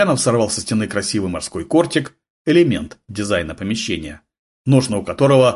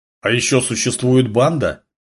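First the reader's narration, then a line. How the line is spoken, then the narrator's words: Grumbling. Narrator (Russian): проворчал Гурьянов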